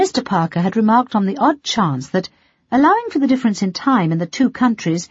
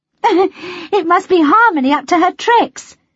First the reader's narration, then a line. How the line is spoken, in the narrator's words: said Melody, laughing